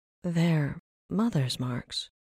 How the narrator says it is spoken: Rin said, in an almost reverent whisper

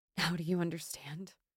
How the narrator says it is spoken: She asked desperately

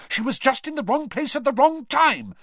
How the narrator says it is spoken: Hermione snapped at Percy

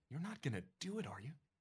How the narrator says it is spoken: Pat whispers

